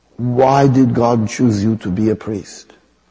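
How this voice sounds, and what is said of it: Imitating Mother Teresa's accent. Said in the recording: “I have to use the accent, not being discourteous. ... I have to use the accent.”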